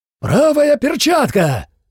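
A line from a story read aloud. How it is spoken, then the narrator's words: Sudden shout. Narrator (Russian): вдруг крикнул Фрай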